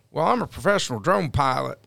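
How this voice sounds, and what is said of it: Poor put-on American accent. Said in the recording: “butchering the American accent... That was horrible”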